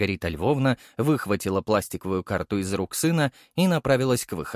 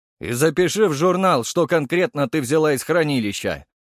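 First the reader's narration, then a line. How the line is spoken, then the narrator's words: Shouted after her. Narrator (Russian): крикнул ей вслед Архаров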